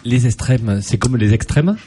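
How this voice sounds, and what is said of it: Mock Norman French accent. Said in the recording (French): “Il se moque de ton ... Accent normand.”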